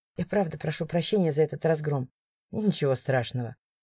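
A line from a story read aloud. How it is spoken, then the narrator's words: Unexpectedly soft. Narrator (Russian): неожиданно мягко сказал Марк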